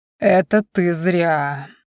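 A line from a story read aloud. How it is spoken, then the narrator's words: Growled through teeth. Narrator (Russian): сквозь зубы прорычал Риордан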